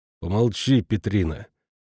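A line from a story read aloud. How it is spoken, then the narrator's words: Grumbling. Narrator (Russian): проворчал Иремеш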